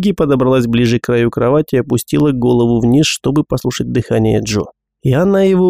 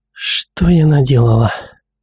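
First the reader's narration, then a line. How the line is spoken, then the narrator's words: Whispered to herself. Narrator (Russian): Эту фразу она прошептала, обращаясь этим вопросом не к Джоди, а к самой себе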